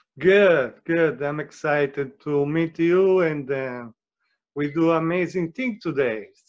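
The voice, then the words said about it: Italian accent. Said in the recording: “You're Italian, huh? You got the Italian accent, huh? ... with that accent”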